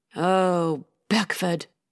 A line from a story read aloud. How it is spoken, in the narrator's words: White sighed